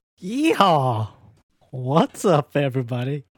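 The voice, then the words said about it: Cowboy voice imitating a singer. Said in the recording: “I tried to channel Fred Durst in a fucking cowboy voice, and that didn't work.”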